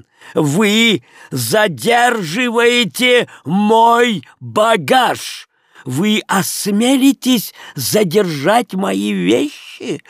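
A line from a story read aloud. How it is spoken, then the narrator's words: Intimidating shout. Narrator (Russian): крикнул Леон таким голосом, что хозяин, очевидно, счел за лучшее отступить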